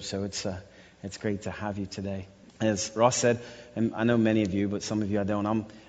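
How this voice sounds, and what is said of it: Strong Russian-influenced accent. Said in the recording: “even though I know it doesn't sound like that at times. I've got this accent from being in Russia since 1997 ... if you think my accent is strong”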